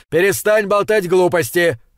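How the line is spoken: Impatient yelling. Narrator (Russian): заорал Макнаут, теряя всяческое терпение

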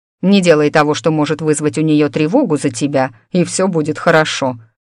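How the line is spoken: Wry snort. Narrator (Russian): хмыкнул Клайв

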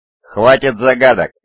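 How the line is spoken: Barked. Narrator (Russian): рявкнул Субха

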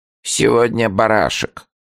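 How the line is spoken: Sudden wooden little voice. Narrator (Russian): провозгласила вдруг Лидия Николаевна деревянным голоском, из-под лобья

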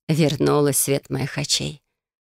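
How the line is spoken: Smiling sigh. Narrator (Russian): улыбнулась женщина, вздохнув

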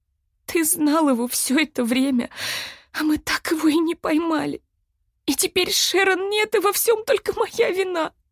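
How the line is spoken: Bitter sobbing. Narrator (Russian): Я горько рыдала

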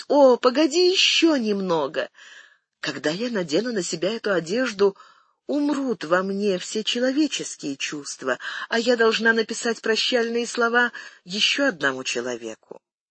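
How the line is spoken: Pleading. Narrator (Russian): она взмолилась

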